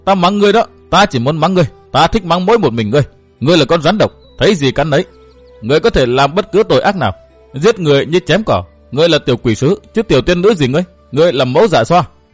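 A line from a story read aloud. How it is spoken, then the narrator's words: Raised voice. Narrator (Vietnamese): Tiểu Linh Ngư cao giọng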